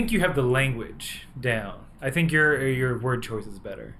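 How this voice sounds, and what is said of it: Usual voice. Nothing is said of it.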